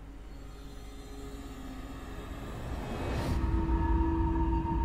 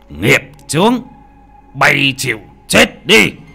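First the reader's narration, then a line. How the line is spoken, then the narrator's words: Old man shouting. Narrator (Vietnamese): lão già mà hét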